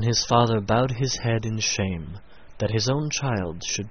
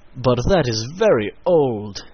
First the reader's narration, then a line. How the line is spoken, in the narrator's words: exclaimed his father